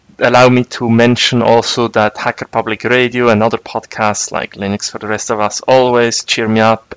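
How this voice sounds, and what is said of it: Noticeable accent of his own. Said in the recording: “you can imitate my accent”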